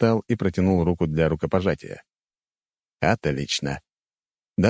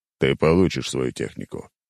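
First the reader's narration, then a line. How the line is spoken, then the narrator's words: Deep bass voice. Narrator (Russian): пробасил Зубров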